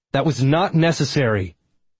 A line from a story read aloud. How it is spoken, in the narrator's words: I shouted